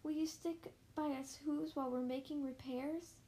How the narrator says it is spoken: pleaded the voice of the mares

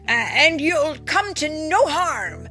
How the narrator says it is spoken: bellowed Tim, trying to be fierce

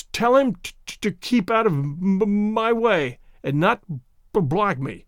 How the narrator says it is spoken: stuttered Tay-Tay Mulder

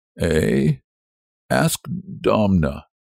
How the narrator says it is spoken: muttered Stepan Lukic

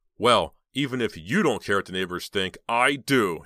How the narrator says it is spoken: he said angrily

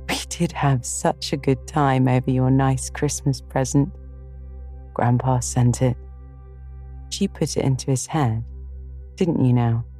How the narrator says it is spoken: she laughed too, as she said in her heartiest way

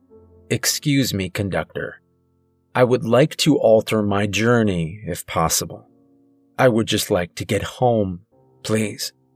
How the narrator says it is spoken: say calmly but clearly

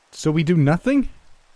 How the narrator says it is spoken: I shouted

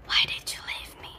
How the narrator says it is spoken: She whispered to my mom

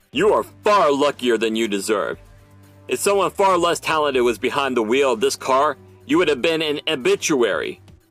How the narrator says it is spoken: roared Weatherman

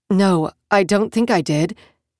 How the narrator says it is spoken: she said

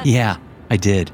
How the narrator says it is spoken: she said, and we kept laughing

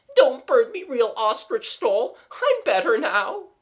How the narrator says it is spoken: with a deep sob and said

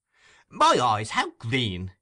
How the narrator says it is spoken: exclaimed the young gentleman

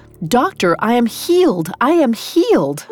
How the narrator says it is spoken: cried

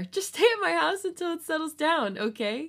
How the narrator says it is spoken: He whined louder than before

